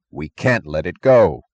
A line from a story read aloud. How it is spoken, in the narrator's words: Eddie answered fiercely